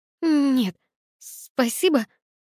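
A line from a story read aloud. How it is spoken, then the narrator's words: Stammering. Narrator (Russian): заикалась я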